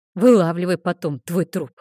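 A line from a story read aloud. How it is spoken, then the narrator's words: Thoughtful snort. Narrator (Russian): хмыкнул он, в задумчивости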